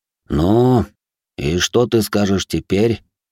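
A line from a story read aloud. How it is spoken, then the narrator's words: Tired question. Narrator (Russian): устало поинтересовался Кояма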